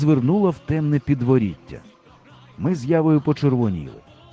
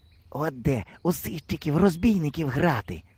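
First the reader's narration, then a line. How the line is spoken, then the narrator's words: Envious whisper. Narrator (Ukrainian): заздро шепнув мені Ява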